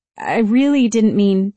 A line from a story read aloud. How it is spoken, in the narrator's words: Debbie stuttered